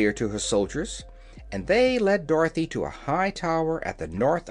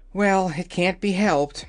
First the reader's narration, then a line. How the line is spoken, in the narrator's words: said Dorothy with a sigh